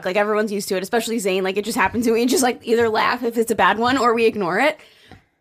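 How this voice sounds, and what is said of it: Strained voice cutting in and out. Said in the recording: “I think I'm losing my voice, by the way, from all the activities that I've been doing. So if my voice goes in and out, that's what's happening.”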